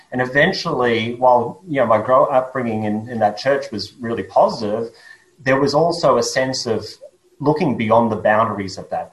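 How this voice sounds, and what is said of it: Australian accent. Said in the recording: “my accent is Australian”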